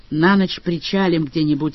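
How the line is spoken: Gloomy. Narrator (Russian): мрачно сказал Джон Том

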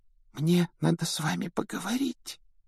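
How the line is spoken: Embarrassed whisper. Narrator (Russian): прошептала она смущенно

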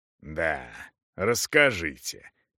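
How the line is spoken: Distrustful grumble. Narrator (Russian): недоверчиво проворчал капитан

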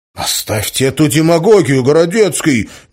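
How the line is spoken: High-pitched shout. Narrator (Russian): неожиданно тонко выкрикнул Валентин

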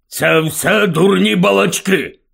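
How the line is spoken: Grumbled. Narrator (Ukrainian): буркнув дядько Вернон

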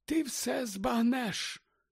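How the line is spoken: Whisper. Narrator (Ukrainian): прошепотів Дамблдор

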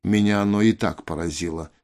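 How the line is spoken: Calm. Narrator (Russian): спокойно сказал Рой

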